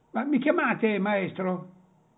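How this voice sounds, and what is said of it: Childlike voice, southern Italian accent. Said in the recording (Italian): “Una voce infantile, con lo stesso accento ... con un accenno meridionale”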